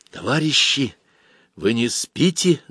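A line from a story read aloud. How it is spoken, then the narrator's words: Sudden whisper. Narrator (Russian): зашептал вдруг Боря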